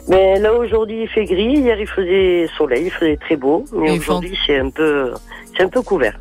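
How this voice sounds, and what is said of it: Southern French accent. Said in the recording (French): “d'où cet accent du Sud?”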